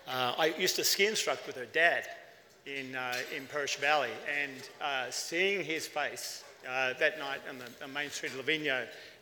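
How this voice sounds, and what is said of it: Australian accent. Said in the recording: “my accent, I'm Australian”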